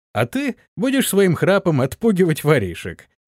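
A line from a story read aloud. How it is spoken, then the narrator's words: Pleased laughing. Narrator (Russian): засмеялся довольный своей шуткой Антон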